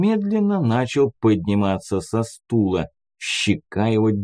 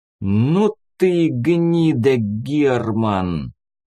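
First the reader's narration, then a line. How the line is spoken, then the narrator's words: Furious hiss through teeth. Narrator (Russian): С неимоверной злобой сквозь зубы прошипел Кир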